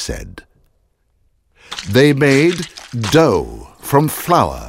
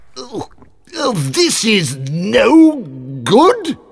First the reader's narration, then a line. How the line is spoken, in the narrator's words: he cried